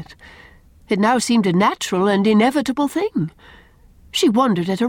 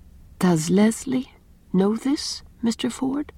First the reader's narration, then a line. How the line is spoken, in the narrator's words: she asked quietly